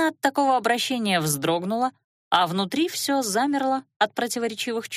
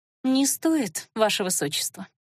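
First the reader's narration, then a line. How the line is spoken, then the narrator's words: Gentle. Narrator (Russian): мягко проговорила Элира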